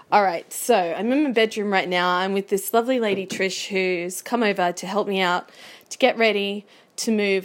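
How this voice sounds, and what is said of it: Shaky voice. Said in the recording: “my voice sounds a little shaky”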